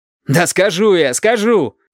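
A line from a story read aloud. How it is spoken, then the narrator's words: Shout. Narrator (Russian): крикнул Валентин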